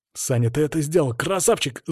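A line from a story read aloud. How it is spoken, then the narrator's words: Yell. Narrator (Russian): заорал он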